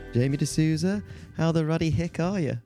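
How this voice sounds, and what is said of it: Put-on accent. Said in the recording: “I don't know why we're doing an accent”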